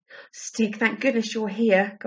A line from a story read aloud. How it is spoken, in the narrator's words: gasped Barney